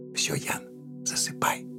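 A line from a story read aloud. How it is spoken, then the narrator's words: Mother's soft whisper. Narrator (Russian): прошептала ему мама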